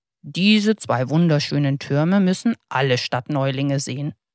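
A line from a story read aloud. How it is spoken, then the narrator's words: Plain. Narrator (German): sagte er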